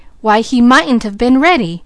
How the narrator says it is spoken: he exclaimed

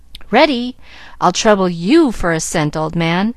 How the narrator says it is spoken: with a chuckle

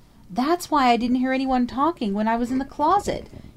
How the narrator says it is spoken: she cried, her voice almost hysterical in its vehemence

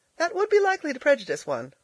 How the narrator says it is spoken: laughed Elnora

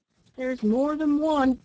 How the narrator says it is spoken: cried another man

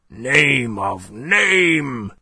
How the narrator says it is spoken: groaned to the rather scared members of the company assembled there

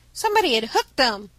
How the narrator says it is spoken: cried Ned

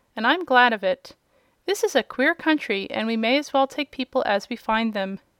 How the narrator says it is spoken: said Uncle Henry, with a laugh

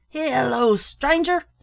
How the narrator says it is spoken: shouted a voice from within

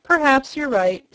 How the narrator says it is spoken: sighed the jailer

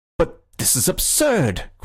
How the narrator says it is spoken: cried the policeman, with an excitement uncommon in persons of his figure and costume

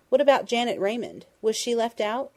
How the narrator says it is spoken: Dundee asked

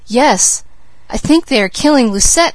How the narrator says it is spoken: exclaimed the maid

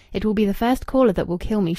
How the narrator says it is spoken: she had said

